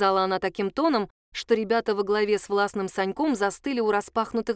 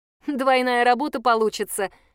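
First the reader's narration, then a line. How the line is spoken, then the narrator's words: Nervous laugh. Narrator (Russian): нервно хохотнула Даша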